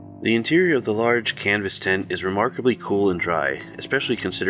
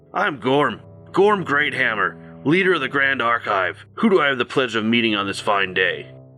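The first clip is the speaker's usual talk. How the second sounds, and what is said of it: Deep-voiced dwarf character voice. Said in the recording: “calls a deep voice from one of the corners. A male dwarf”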